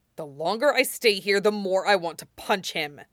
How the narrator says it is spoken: Jiang Cheng growls

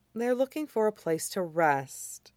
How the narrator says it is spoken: Amaya said softly

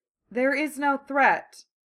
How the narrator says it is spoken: Baymax said as calmly as ever

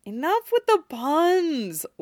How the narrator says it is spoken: Lance sighed

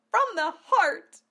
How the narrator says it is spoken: Amelia cried

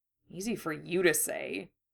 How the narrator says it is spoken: Harry muttered

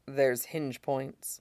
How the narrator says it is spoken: Mustang murmurs in his ear

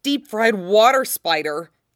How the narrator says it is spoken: Ed blurts

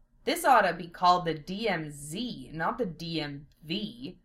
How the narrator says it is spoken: Lena growled

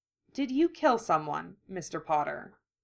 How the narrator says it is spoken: Narcissa asked evenly

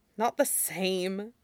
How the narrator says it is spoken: Wenkesheng says with a gusty sigh

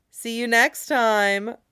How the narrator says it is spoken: Murray mocks

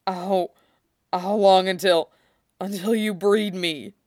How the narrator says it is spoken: Ulaz rumbled again

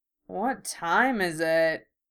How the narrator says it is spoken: George asked sleepily

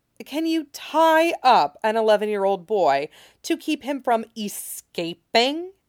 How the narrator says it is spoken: Jamie said through his teeth

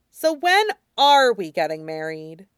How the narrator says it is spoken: asked, and he let out an amused snort

